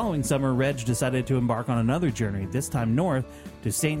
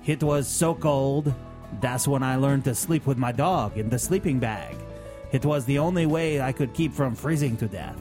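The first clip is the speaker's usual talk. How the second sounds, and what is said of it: Put-on accent. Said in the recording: “This is the best accent you've ever done.”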